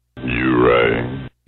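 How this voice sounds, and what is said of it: Very deep radio voice. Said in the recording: “Talk about a deep voice. ... Yeah, that was pretty deep. That's a radio voice right there.”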